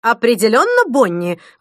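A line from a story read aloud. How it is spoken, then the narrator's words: Interjecting. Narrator (Russian): вмешалась Рената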